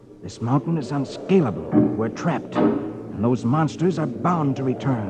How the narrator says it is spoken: Under his breath, mutters to himself

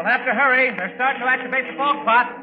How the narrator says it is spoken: the MP who was supposed to take care of us hollered

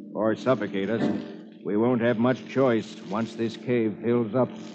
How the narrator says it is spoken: Hoppy says grimly

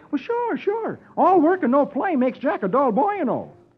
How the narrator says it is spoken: Dagwood replies cheerfully

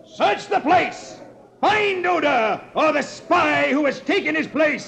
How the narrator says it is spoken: he suddenly leaps to his feet and shouts

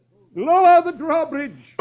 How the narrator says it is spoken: the sheriff cries

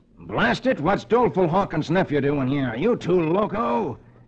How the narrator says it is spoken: he exclaims

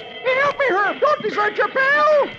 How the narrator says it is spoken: Dagwood yells

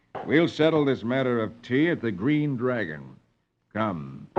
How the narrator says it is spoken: Paul says grimly

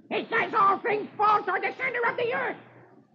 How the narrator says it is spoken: Dewey very angrily shouts

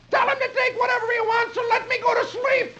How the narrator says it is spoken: Dagwood thinks and shouts

